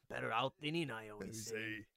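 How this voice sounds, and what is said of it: Poor imitation of cartoon ogre voice. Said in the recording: “terrible Shrek impression ... Can't do a Shrek voice.”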